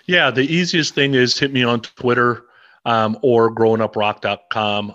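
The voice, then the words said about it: Polished radio-style voice. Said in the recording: “You've got the great radio voice.”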